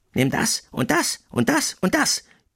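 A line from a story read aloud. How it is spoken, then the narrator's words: Gloating mice squeaking. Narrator (German): piepsten die Müllermäuse schadenfroh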